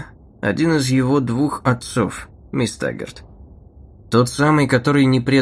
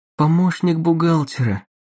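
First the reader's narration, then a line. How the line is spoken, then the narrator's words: Moaning. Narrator (Russian): простонала она, вспомнив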